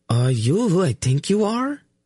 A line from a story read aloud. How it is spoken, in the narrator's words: She asked in an awed voice